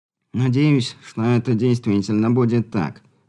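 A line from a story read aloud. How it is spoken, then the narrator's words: Sighing. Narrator (Russian): вздохнул Болотин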